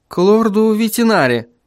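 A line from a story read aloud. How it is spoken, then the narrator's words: Uncertain. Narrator (Russian): неуверенно произнес Вильям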